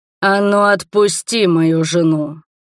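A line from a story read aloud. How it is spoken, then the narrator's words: Growling. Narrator (Russian): прорычал Роберт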